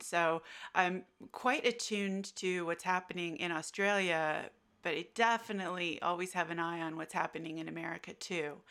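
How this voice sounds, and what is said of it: American accent. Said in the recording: “you can tell from my accent, I'm American.”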